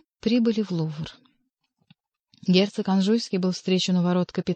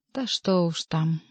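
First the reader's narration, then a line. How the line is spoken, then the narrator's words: Sighing. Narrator (Russian): вздохнул Бюсси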